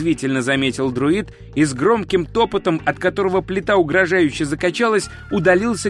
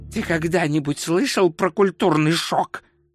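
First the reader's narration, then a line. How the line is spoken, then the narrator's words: Hissing. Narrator (Russian): прошипел он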